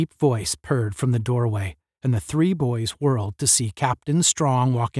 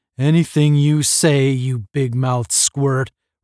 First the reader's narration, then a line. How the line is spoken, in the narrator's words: roared Astro